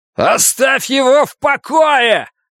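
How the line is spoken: Roar. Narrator (Russian): проревел Клай

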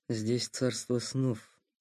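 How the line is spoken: Muttered. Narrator (Russian): пробормотал Сухов

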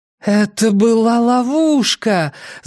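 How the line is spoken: Moaning. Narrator (Russian): застонала Нина

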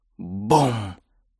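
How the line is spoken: Whisper. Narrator (Russian): прошептал он

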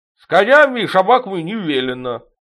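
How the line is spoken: Ragged chorus of yelling. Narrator (Russian): В разнобой заорали бородатые детки

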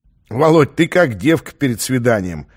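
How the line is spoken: Mocking snort. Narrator (Russian): хмыкнул полковник

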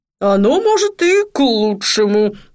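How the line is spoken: Grumbling. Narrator (Russian): проворчал Джуфин

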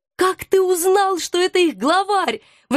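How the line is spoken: Admiring exclamation. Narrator (Russian): восхищенно воскликнула я

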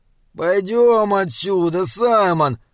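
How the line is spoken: Whimpering, whining. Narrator (Russian): захныкал он

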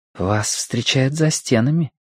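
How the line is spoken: Whisper. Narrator (Russian): прошептала Вэйсун

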